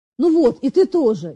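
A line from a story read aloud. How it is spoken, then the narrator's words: Sudden sharp anger. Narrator (Russian): неожиданно резко вдруг произнес он, сердито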